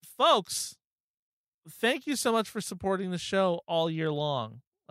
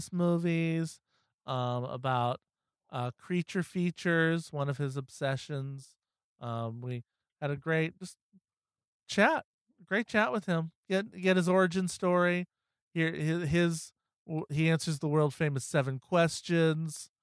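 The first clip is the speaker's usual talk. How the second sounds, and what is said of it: Bad Donald Trump impression. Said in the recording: “somebody else doing a bad impression of Trump. ... That was a really bad impression. ... terrible.”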